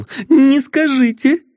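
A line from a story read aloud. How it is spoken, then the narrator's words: Laughing. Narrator (Russian): рассмеялась она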